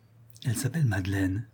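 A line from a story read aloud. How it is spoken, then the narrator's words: Murmuring. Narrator (French): murmura Richard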